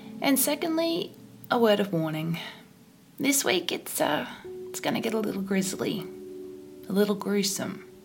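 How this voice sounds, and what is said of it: Congested voice from a cold. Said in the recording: “I have a cold, so my voice is just going to be so sexy this week”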